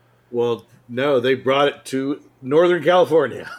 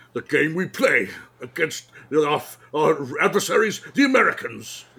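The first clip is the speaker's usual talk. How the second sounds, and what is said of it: Imitates another person's voice, Scottish accent. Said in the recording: “do some lines from Red October ... with his Irish accent. ... Scottish. ... So bad.”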